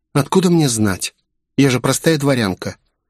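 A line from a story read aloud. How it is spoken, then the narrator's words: Sighing reply. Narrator (Russian): потеряв терпение, начал злиться, вздохнула и выдала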